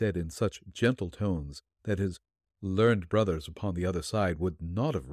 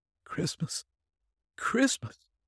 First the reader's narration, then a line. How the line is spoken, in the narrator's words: shivered the man, with a little moan